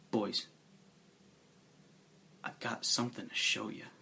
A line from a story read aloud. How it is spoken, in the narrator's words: in a little more than a whisper, he says